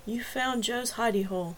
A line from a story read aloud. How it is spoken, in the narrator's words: his voice was soft, kind